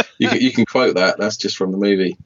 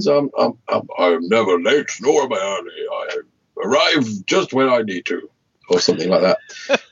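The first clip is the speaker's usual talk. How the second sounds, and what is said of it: Imitates another person's voice. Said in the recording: “that was a tremendous impersonation ... I am Ian McKellen. Can you not recognise my voice?”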